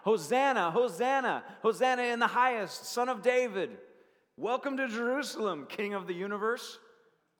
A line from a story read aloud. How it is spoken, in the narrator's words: they're shouting out